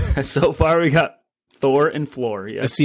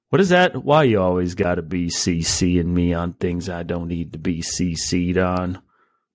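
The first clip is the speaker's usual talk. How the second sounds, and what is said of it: Imitates another person's voice. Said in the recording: “As Jim Halpert mimicking Stanley Hudson on The Office. ... That was a good impression of Jim's impression.”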